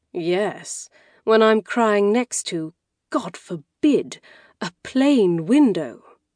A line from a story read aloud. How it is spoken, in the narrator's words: said with a sigh